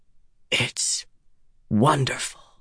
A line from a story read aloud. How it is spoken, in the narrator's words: he whispered